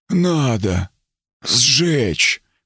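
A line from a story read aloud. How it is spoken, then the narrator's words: Rasp. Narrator (Russian): прохрипел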